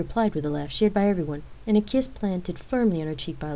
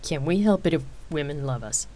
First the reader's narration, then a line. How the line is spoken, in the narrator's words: Rain cockily asked and chuckled